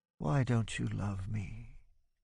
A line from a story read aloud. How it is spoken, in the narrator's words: murmurs